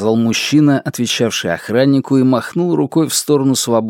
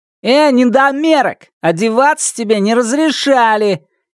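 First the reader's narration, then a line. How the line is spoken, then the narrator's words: Shout. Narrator (Russian): крикнул парень с дальней койки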